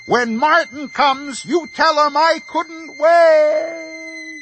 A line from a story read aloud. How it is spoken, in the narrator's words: The old man started running, and he yelled over his shoulder